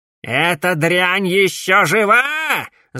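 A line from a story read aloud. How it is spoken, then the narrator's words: Director's yell. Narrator (Russian): завопил директор Эмбер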